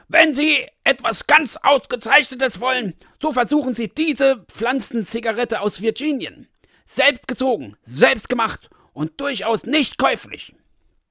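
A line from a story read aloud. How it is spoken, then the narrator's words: Shouted. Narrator (German): Der vierte schrie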